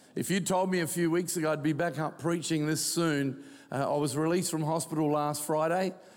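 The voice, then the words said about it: Croaky, hoarse voice. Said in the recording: “my voice is a bit croaky”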